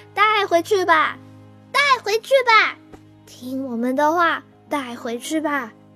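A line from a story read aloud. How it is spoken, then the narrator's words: Loud clamoring chorus. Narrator (Chinese): 花儿们大声嚷嚷起来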